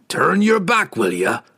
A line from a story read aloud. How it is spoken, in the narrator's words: Brunner grunted at the pirate captain as the dwarf dropped heavily into the rowboat